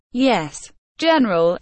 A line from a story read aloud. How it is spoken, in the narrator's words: the officer replied nervously